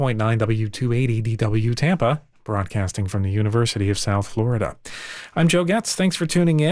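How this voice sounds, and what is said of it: Usual voice. Nothing is said of it.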